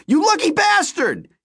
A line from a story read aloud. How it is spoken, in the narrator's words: he cried